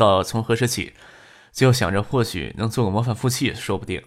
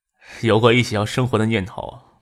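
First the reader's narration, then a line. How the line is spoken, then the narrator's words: Wistful, smiling. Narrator (Chinese): 总有一些惆怅，才回头笑着说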